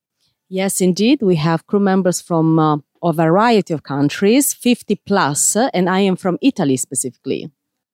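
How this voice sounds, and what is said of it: Slight foreign accent. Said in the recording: “she has a little bit of an accent ... they have accents”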